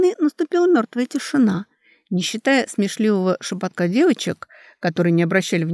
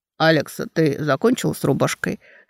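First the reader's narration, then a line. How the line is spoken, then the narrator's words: Calm question. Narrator (Russian): спокойно спросил Карей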